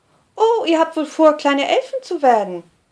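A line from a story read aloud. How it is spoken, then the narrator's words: Teasing with hearty laugh. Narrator (German): neckt der blaue Schwede die beiden Freundinnen und lacht dabei herzhaft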